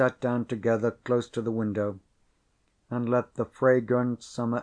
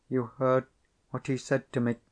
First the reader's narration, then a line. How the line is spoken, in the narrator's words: she went on quickly and vehemently